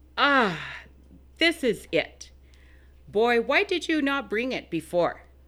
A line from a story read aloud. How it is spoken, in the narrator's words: exclaiming